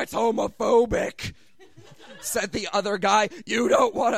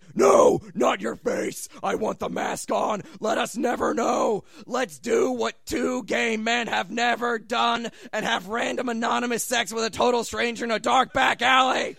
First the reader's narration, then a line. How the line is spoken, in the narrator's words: Rorschach stayed his hand and said, rasping